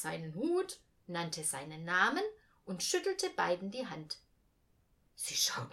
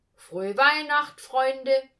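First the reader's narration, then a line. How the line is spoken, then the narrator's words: Calling out. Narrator (German): rief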